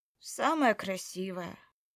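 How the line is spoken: Resigned sigh. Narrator (Russian): Обреченно вздохнула я

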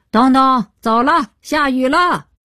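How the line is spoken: Shouting into the distance. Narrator (Chinese): 父亲向远处高喊

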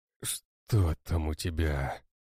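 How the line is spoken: Hoarse. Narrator (Russian): хрипит брат

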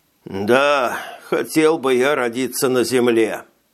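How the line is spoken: Bitter sigh, dwarf. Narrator (Russian): с горечью вздохнул карлик

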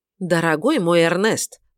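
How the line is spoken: Fairly angry yet patronizing. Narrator (Russian): довольно сердито, но все же с легкой покровительственной улыбкой сказала миссис Марвел

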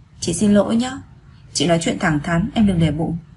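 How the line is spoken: Slight frown, apologetic. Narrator (Vietnamese): Lăng Sương khẽ nhíu mày nói

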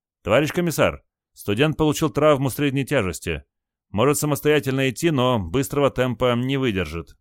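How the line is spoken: Brisk cheerful report. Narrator (Russian): бодро доложила Кайса

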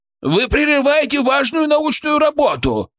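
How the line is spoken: Indignant shout. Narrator (Russian): с негодованием крикнул кто-то

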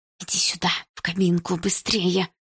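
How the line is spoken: Whispering. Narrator (Russian): прошептала она

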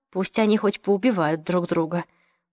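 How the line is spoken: Absent-minded mumble. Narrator (Russian): машинально пробормотала Марион

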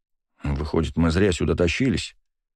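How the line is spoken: Displeased grumbling. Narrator (Russian): недовольно заворчал Леонид

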